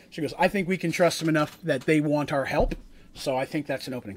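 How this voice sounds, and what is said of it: Poor put-on Scottish accent. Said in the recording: “your accent just came out... When I talk Dwarven, it very, very much comes out as the worst Scottish accent ever... it's not a good accent. I don't do it well.”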